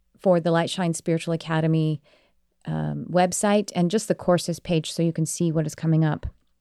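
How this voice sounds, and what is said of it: Slightly tired voice. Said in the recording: “my voice is a little tired.”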